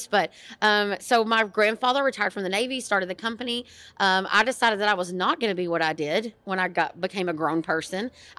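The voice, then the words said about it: Strong East Texas accent. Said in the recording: “my family still owns a heating and air conditioning and plumbing company in rural East Texas. If you can't tell by our accents, mine's a little stronger than Emily's.”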